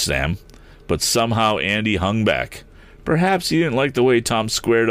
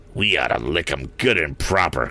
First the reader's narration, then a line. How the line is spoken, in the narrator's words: growled the squint-eyed lad